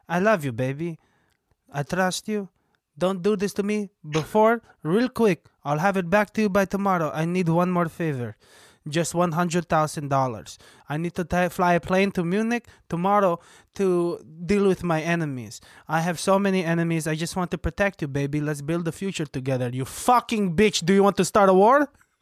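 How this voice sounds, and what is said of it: Put-on Israeli accent. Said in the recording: “You have a good Israeli accent. You're doing your accents are getting really good”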